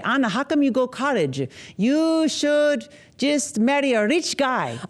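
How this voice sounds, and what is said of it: Imitates her mother's accent. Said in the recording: “I'm going to say her accent... I want to say this with respect. I'm not mocking her... she was very lone in her accent and she was mocked for it. So I would speak to her in her accent”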